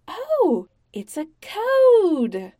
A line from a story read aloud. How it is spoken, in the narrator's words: Vala said brightly